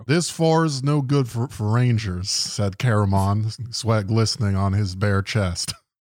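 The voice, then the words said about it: Exaggerated Montana hick accent. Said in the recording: “some random fucking dipshit from Montana just going like ... in that accent”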